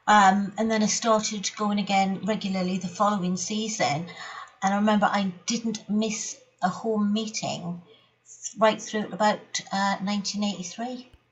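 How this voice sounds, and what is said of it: Newcastle Geordie accent. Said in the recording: “you've got a Newcastle accent”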